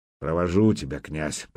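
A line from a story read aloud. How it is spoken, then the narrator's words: Old man's grumble. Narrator (Russian): проворчал ветеран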